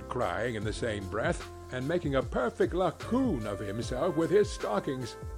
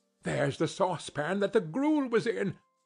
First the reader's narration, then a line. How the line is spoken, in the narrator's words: cried Scrooge